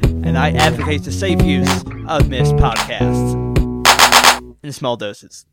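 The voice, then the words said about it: Put-on American accent. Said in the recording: “in this link, I have an American accent”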